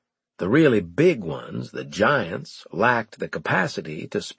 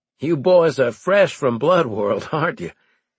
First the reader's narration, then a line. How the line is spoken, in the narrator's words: I asked, laughing